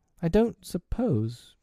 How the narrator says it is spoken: Tootles said indifferently, bashfully or timidly

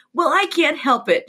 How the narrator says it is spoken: Jen whined

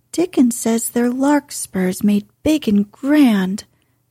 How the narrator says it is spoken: cried Mistress Mary

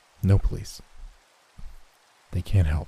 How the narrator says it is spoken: he turned to me and whispered

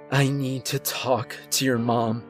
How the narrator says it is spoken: I said through exhausted panting

